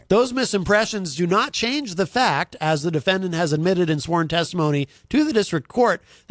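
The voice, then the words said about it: Smooth, pleasant radio-announcer voice. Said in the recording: “you have a real radio voice ... It's easy on the ears.”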